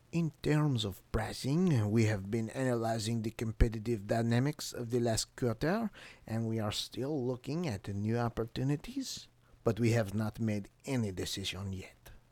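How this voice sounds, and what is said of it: Put-on French accent. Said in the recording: “he sounds French. I'm going to give him the French accent.”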